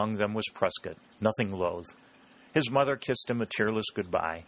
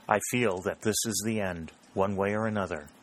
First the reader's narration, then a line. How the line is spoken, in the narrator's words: she said